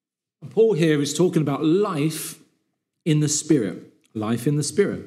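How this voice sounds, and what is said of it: Usual voice. Nothing is said of it.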